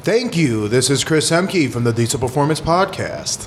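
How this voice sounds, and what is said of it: Put-on radio announcer voice. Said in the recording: “That was like my radio voice. It's not as good as yours.”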